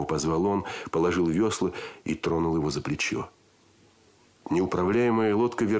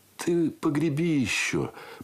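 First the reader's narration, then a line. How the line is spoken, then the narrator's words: Muffled request. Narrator (Russian): попросил он и глухо добавил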